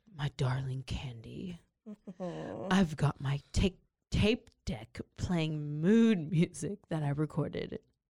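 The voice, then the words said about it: Deep, serious voice. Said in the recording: “in his deep, serious voice”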